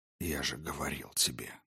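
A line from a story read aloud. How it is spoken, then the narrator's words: Whisper. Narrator (Russian): зашептал Дроган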